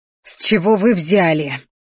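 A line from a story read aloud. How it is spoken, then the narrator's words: Barely restrained growl. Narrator (Russian): зарычала я, едва сдерживаясь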